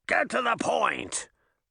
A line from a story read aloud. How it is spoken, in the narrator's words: Puck growled